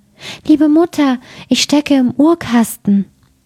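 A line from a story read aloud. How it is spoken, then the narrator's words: Thin voice calling. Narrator (German): rief eine feine Stimme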